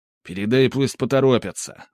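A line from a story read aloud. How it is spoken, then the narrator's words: Irritated bark. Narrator (Russian): раздраженно рявкнул Скип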